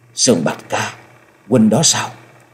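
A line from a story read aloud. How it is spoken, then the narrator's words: Trembling, hopeful, choked with emotion. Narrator (Vietnamese): Giọng nói hơi run run, thể hiện rõ sự trông chờ và mừng vui, không giấu được nỗi xúc động đến nghẹn ngào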